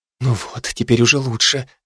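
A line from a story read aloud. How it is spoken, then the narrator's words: Whisper. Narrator (Russian): опять зашептала она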